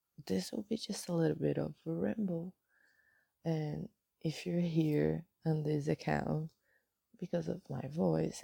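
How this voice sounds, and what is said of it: Hoarse morning voice. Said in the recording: “This is my morning voice. ... I'm still hoarse”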